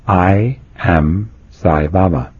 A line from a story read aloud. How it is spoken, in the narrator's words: In a calm but firm voice, the boy announced